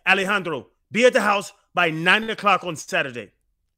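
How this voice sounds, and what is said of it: Imitates another person's accent. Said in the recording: “That's my accent, boys.”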